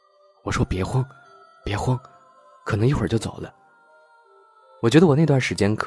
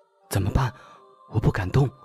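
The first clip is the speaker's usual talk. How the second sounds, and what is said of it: Quiet, hushed frightened voice. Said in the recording (Chinese): “他很小声的说”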